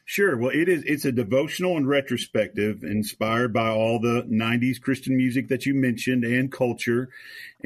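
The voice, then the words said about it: Slight Tennessee Southern accent. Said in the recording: “just north of Nashville, Tennessee. If y'all can detect the accent here a little bit”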